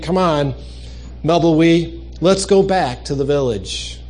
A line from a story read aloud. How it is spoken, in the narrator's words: sighed, saying